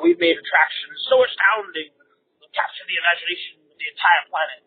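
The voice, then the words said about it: Bad impression of Hammond. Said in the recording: “Hammond says ... pardon my really bad impression there”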